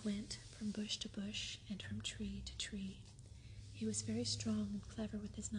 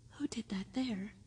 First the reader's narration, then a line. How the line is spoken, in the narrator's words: he cried